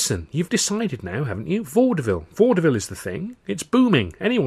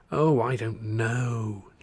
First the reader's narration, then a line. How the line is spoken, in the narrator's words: Charlie moaned